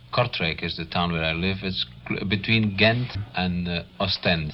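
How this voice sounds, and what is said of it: Foreign accent. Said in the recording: “I love your accent. ... It's pretty nice, it really is.”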